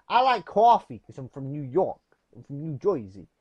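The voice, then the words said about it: Very bad New York-area accent impression. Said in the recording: “That's the worst accent impression in the world ever.”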